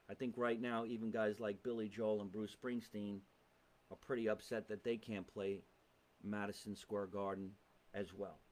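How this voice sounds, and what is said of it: New Jersey accent. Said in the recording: “We're in New Jersey, if you haven't heard the accent.”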